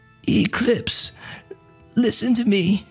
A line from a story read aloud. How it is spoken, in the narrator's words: she rasps